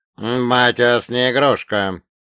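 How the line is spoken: Growl. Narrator (Russian): рыкнул Каин

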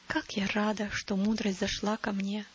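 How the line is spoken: Whispered to herself. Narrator (Russian): прошептала она про себя

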